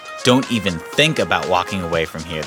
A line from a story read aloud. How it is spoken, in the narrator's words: the chef says angrily